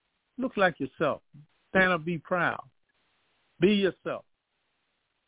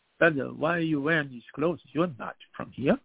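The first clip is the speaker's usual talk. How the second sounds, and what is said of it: Imitated foreign accent. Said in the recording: “You know, with the accent.”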